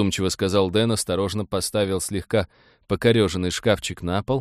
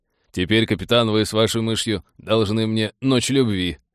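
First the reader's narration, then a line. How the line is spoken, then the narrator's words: Cheerful chuckle. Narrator (Russian): хохотнул неунывающий пилот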